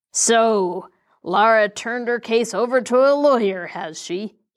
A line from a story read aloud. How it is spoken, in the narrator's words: snarled